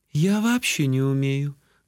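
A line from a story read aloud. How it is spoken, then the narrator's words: Sad admission. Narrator (Russian): грустно призналась охотница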